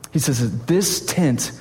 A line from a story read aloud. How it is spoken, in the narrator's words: I groan